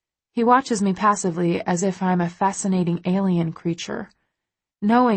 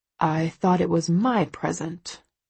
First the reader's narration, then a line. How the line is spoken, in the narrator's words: he mutters sulkily, but I think he's teasing